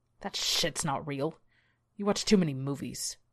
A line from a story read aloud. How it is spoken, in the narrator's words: Glenn scoffed